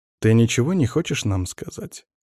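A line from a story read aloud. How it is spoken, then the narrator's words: Gentle question. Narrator (Russian): Так же ласково спросил Алексей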